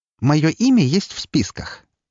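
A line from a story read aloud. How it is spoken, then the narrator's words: Sarcastic reply. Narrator (Russian): язвительно отозвалась она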